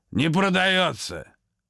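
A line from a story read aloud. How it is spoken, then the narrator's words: Shouting. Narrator (Russian): крикнул старьевщик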